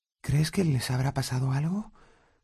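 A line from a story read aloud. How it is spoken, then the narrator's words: Whispering. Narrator (Spanish): susurró Hermión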